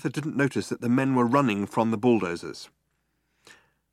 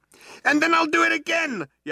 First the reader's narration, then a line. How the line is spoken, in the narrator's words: yelled Arthur